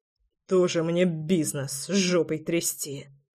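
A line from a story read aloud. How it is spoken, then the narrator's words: Old man's muttering. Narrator (Russian): четко расслышал я бормотание старика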